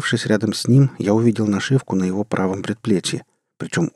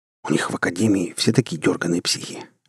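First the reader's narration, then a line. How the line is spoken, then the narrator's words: Quiet whisper. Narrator (Russian): тихо шепнул Теннон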